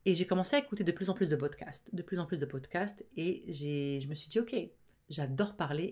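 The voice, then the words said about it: Fast speech, mixed Arabic-French-Canadian accent. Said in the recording (French): “Moi qui parle tellement vite, qui a un accent, arabo-franco-canado weirdo, là, on sait pas trop d'où vient mon accent”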